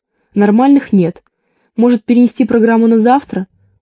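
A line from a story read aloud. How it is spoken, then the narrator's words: Timid suggestion. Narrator (Russian): робко предложила я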